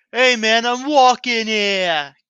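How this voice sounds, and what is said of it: Put-on New Yorker accent. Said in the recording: “the traditional, like, you know, New Yorker accent.”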